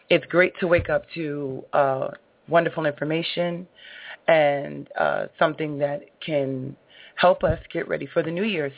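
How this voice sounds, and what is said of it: Tired, sleepy voice. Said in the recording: “I am tired and a little sleepy”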